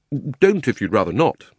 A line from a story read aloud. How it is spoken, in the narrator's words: said Diggory